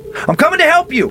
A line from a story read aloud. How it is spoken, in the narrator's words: I shouted